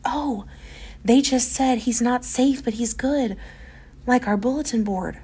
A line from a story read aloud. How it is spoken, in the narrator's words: the sweet child gasp